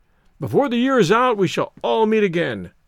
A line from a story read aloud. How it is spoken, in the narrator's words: cried Stoddard, hopefully